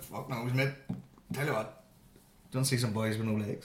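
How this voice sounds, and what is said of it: Prince Harry in a Belfast accent. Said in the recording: “Imagine you just talked with sort of Belfast accent for no reason. Where'd you get that accent? ... Imagine he said that.”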